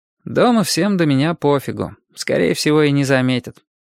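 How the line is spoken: Bored. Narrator (Russian): скучным голосом сказал Костя

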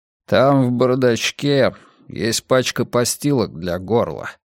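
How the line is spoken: Plain. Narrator (Russian): сказал Мунк

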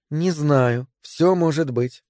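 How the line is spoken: Uncertain. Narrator (Russian): неуверенно сказала Мэри

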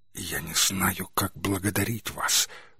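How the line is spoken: Whispered. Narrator (Russian): прошептала Пейдж

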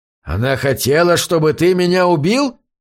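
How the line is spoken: Growled. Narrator (Russian): прорычал Чак

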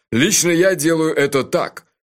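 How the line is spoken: Short angry laugh. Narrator (Russian): Джуфин снова рассмеялся, коротко и зло

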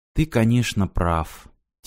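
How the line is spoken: Quiet. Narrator (Russian): тихо сказала Ирина

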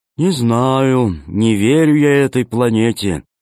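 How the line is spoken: Gloomy. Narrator (Russian): мрачно сказал Зеленый

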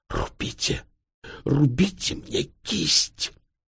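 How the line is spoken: Hoarse wheeze. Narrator (Russian): Тюльпанов прохрипел

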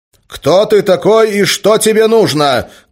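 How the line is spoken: Shouting. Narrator (Russian): крикнул Гессер

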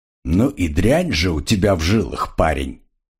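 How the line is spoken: Quiet. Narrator (Russian): негромко сообщил Айра

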